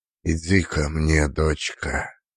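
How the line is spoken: Hollow muffled voice. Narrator (Russian): сказал глухим голосом

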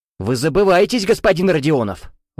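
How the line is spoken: Shouted out. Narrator (Russian): выкрикнул Дидро

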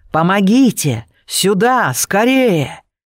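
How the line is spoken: Screaming for help. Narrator (Russian): Набрав в легкие побольше воздуха, я закричала

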